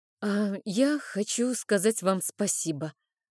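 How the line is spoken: Timid. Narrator (Russian): робко начала я

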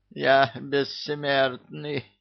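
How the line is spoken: Prisoner moaning. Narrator (Russian): простонал узник

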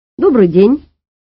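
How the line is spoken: Cheerful declaration. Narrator (Russian): бодро заявил

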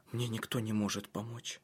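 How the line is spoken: Whispered. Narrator (Russian): прошептала она

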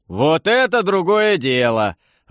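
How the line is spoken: Joyful full-voiced roar. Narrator (Russian): Радостно заревел Светозар во весь голос

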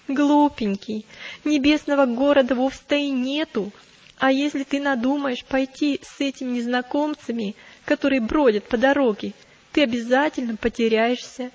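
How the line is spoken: Dismissive laughing. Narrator (Russian): она только рассмеялась, как и его товарищи, и сказала

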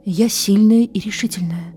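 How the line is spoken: Quietly repeated to herself. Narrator (Russian): тихонько повторяла она сама себе

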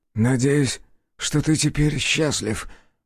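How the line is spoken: Hoarse rasp. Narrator (Russian): прохрипел

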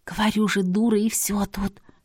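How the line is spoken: Lamenting whisper. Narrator (Russian): сокрушалась она, но все так же шепотом

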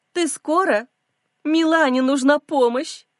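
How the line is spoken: Theatrical pitiful sobbing. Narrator (Russian): Театрально всхлипывает она, давит на жалость

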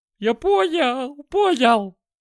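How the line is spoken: Howling. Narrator (Russian): взвыл он

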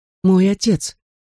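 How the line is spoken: Forced out, strained. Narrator (Russian): сумел таки выдавить я

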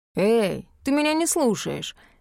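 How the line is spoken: Drawled, almost offended. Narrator (Russian): почти обиженно протянул Рик

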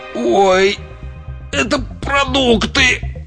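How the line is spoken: Groaning. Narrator (Russian): простонал он

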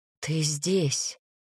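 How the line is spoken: Breathed into hair. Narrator (Russian): выдохнул он мне волосы

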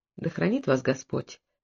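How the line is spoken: Quiet. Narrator (Russian): тихо сказала сестра Мадлена

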